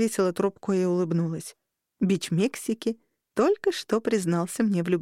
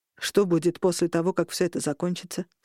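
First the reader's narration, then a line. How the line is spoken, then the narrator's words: Plain. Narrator (Russian): спросил Берн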